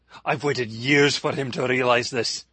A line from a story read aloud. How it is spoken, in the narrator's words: he shouted